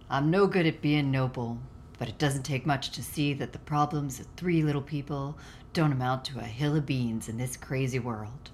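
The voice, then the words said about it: Attempted Humphrey Bogart impression. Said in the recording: “you're going to try to do a Humphrey Bogart voice? ... I'd have to get into my Midwestern. ... Didn't sound like Humphrey Bogart at all”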